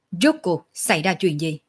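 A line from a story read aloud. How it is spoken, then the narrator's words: Angry. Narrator (Vietnamese): Sở Dương tức giận nói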